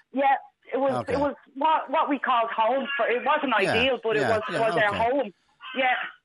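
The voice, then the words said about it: Irish accent from Bray. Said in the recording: “from your accent, you sound like you're from around Bray”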